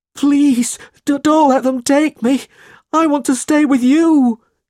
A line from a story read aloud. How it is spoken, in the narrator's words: he cried